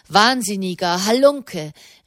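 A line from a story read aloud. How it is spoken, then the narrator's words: Calling out. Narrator (German): rief Kardinal Asselin de Montaigu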